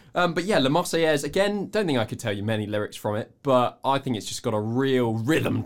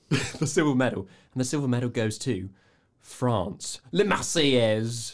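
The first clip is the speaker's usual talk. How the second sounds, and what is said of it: Put-on French accent. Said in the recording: “Brilliant accent there.”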